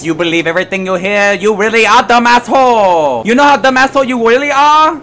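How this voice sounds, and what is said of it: Horrible put-on Chinese accent. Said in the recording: “I'm a white guy doing a horrible Chinese accent. ... the guy doing a Chinese accent”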